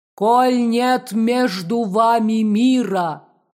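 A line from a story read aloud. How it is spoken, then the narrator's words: Thunderous terrible voice from heavens. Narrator (Russian): прогремел страшный голос с небес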